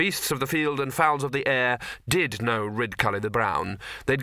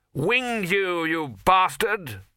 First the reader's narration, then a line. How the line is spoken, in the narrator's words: he normally shouted